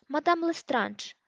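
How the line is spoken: Frightened goblin exclaiming. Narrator (Ukrainian): вигукнув гоблін, явно переляканий

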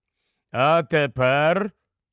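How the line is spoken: Louder, with growling notes. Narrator (Ukrainian): вже гучніше промовив Аслан, і в його голосі діти вловили знайомі нотки гарчання

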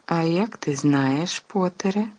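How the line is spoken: Gentle objection. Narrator (Ukrainian): лагідно заперечила МакГонагалл

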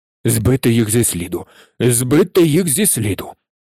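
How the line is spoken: Repeated muttering. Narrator (Ukrainian): Бурмотів щоразу

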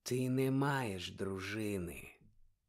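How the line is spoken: Very quiet, cold objection. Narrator (Ukrainian): зовсім тихо заперечив холодний голос

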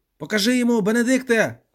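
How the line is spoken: Shout. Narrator (Ukrainian): крикнув Рендом

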